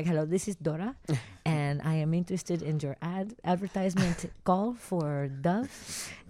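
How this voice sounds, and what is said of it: Imitating her mother's accent. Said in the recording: “pretended to be my mom, right? Because my mom has an accent.”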